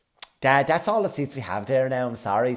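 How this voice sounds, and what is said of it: Nice, polite Irish service-worker voice. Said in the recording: “they're very good at telling you to fuck off as long as they do it in a nice voice... as long as they do it in that voice”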